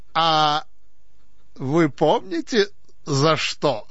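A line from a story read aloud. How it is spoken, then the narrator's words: Officer laughing. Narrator (Russian): засмеялся пристав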